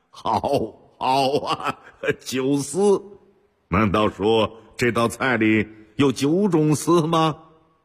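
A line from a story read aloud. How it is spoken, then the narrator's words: Loud hearty laughter. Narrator (Chinese): 乾隆爷突然朗声大笑起来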